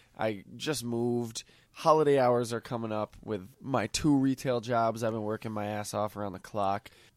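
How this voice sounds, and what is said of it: Congested, stuffy voice. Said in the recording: “hear it in my voice. I got a sinus infection.”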